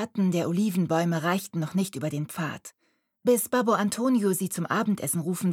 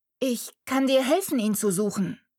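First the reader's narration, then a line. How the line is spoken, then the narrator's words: Shouting. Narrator (German): rief Mariella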